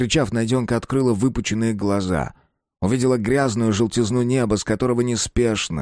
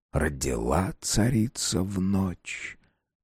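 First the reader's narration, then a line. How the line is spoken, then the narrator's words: Hissing voice in feverish mind. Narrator (Russian): прошипел голос Шишиги в воспаленном сознании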